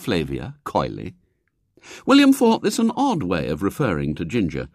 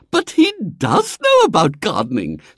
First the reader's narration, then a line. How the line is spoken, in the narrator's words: said Flavia rather indignantly